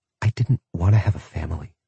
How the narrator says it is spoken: she whispered

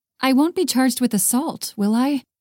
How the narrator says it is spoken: Haley asked

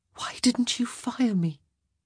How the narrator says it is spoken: Sophie whispered

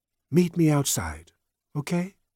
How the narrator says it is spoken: said softly to Soup

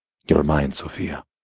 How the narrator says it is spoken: I huskily reminded

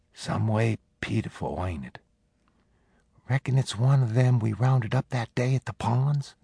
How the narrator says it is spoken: Penny whispered

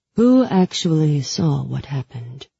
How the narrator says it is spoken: His voice was cool, distant, almost disinterested

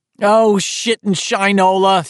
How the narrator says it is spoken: he yelled, dismayed

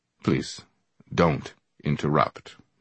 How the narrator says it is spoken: Brother Jack said icily

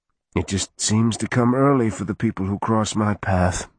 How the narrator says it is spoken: Roger sighed

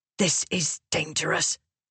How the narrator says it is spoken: Venli hissed to reprimand

